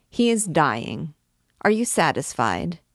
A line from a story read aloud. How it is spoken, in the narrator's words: said the king's advocate, dryly